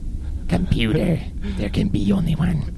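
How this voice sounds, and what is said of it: Christopher Lambert impression. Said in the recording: “I would do Christopher Lambert.”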